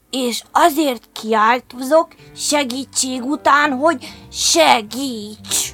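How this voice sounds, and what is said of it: Usual voice. Nothing is said of it.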